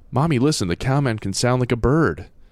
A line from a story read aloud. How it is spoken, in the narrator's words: Tim said, pointing excitedly